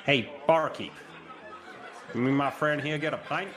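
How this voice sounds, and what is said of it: Put-on American accent, too southern. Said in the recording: “I put on a bit of accent. I mean, do I have to sound like an American ... that went a little bit too southern ... It's a broad accent”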